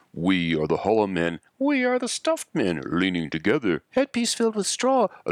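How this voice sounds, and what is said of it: Alternating deep and high voices. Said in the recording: “I'm playing around with the deep voice and the high voice”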